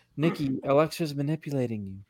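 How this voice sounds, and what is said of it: Imitates another person's voice. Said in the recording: “That was a good impression. Well, not really, but probably.”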